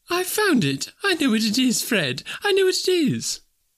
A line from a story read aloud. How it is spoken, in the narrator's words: the plump sister, falling into a similar state, cried out